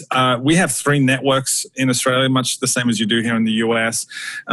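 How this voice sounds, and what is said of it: Australian accent. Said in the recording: “from my accent already, I'm not from the US, I'm from Australia.”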